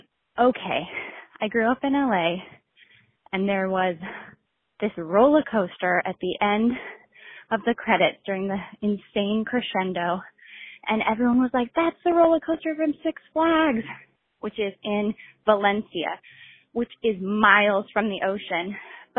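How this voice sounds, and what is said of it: Breathless, out of breath. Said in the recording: “I'm out of breath because I'm pregnant.”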